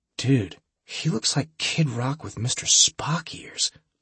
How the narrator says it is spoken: Holly whispered

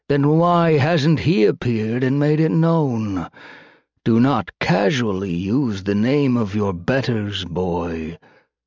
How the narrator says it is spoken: Dveltian drawled

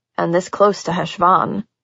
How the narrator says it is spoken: Patch murmured, a look of distraction clouding his eyes

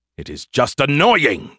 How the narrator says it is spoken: Skippy snapped

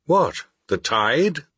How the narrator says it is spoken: exclaimed

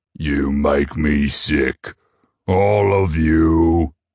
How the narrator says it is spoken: the tree bellowed in an earthy voice

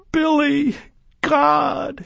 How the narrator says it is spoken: she squealed again, this time so loud the phone distorted

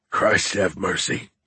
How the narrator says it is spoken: muttered, covering his face with his wrist

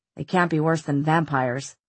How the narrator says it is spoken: Simon muttered

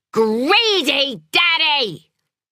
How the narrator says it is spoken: shouted

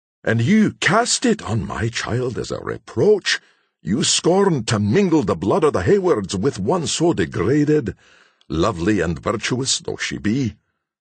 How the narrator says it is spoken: fiercely demanded the jealous parent

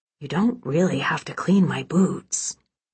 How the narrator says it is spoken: Braden said softly

